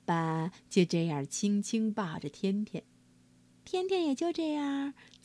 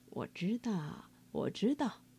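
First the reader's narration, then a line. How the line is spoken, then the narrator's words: Soft, smiling voice. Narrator (Chinese): 爸爸 微笑着轻声说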